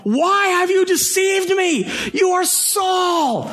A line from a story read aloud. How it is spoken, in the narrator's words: she cried out at the top of her voice and said to Saul